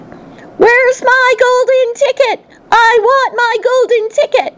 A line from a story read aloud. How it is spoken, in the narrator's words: she would scream at me